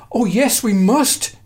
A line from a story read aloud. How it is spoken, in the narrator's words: pleaded, with delight and love